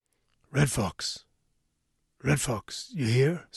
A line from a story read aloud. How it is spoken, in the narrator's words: Sam called out in a loud whisper